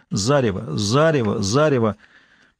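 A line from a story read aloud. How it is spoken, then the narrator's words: Recorded muttering. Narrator (Russian): зазвучало его собственное бормотание, записанное на пленку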